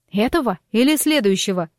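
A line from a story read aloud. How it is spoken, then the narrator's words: Loud laughter. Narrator (Russian): расхохоталась я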